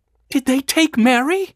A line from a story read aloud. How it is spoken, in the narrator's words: she gasped